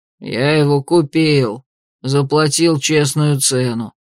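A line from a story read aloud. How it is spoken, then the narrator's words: Grumbling mutter. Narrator (Russian): буркнул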